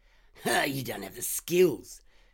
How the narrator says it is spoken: Trevor scoffed

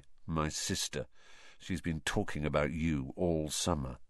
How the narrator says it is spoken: said Ron in an undertone to Harry

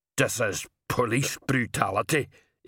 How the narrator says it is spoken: Igneous muttered

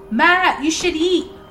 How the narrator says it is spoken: I called out to him

